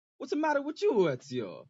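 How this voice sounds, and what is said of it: Put-on Italian accent. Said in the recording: “in an Italian accent”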